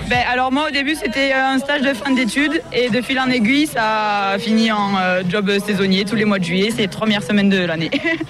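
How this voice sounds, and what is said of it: Slight southwestern French accent. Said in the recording (French): “Vous avez un petit accent quand même, mais c'est pas tout à fait celui de la Bigorre.”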